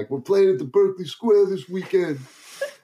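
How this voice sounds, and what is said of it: Imitated New York-style accent. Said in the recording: “how did you get a Brooklyn accent, bro? ... That is an Albany accent.”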